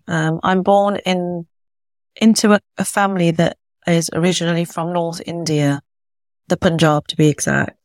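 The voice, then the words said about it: British accent. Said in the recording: “I'm British born, as you can maybe tell by my accent.”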